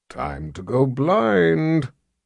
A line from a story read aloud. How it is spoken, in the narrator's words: Jagang growled